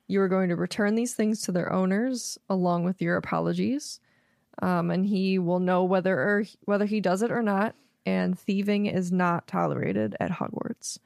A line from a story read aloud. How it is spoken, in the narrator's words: Dumbledore very calmly tells him